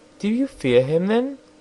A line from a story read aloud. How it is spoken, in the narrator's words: asked the princess anxiously